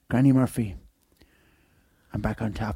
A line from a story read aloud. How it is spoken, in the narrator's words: I whispered down the microphone